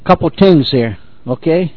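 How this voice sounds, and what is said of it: Put-on Sicilian accent. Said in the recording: “He's doing his best Sicilian impression”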